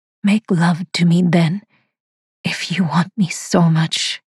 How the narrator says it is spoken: she says huskily

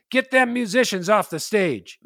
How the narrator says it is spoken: The leader of the group, a big scary guy named Mustache Bill, yelled out

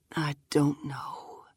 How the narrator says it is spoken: she says, almost a whisper

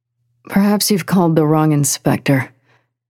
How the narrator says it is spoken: Miyako groaned

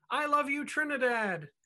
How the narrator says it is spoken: she exclaimed

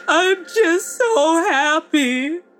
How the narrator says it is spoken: she chokes out through her sobs

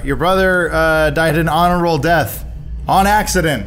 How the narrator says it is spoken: I shout

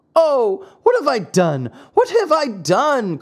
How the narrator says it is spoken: cried Pinocchio

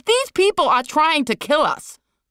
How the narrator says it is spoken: Liz screamed

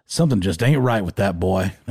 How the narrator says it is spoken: like in the Hank Hill type voice

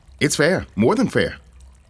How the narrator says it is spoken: I said quickly

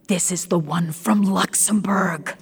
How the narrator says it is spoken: Charlie whispered

